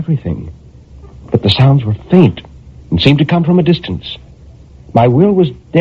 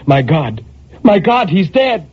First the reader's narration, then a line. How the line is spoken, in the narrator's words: a terror took hold of her, and she cried